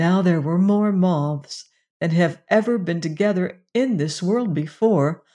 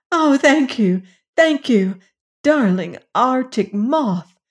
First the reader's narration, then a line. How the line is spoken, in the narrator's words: cried Jane